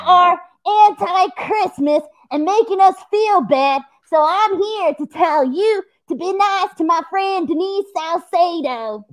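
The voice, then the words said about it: Grinch character voice, unusual accent. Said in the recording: “What's with the accent, Grinch? Like this doesn't sound like you.”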